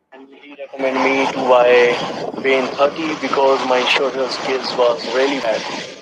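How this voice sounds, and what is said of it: Indian Gujarati accent. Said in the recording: “So he does have an Indian accent. He's a Gujarati”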